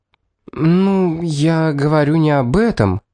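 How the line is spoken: Stammering. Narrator (Russian): проговорила она, запинаясь

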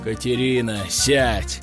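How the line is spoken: Father's icy tone. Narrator (Russian): ледяным тоном произнес ее отец, граф Белозерский

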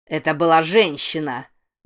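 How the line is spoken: Yelling. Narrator (Russian): вопил Рэй Дэниэльс

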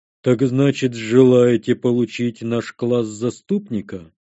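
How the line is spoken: Giant's deep bass. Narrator (Russian): пробасил гигант

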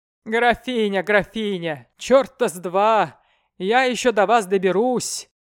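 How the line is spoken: Grumbling old man. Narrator (Russian): ворчал еврей

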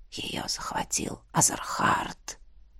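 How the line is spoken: Barely audible spirit whisper. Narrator (Russian): шепнул дух на пределе слышимости

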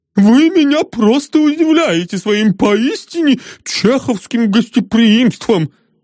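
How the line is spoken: Delighted exclamation. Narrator (Russian): Восторженно воскликнул новый знакомый

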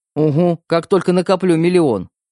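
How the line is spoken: Snorting sarcasm. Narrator (Russian): фыркнул брат

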